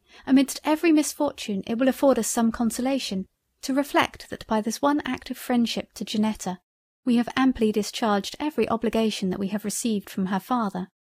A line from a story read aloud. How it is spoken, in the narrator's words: exclaimed I